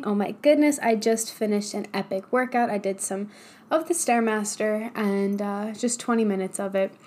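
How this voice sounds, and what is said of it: Very energetic, excited speaking voice. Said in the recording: “hear it in my voice, I have a massive amount of energy this morning.”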